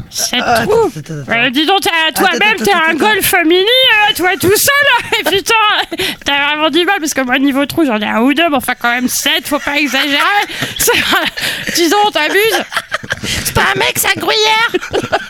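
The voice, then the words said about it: Puppet character voice. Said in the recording (French): “Tu fais aussi la voix de Joe la chaussette.”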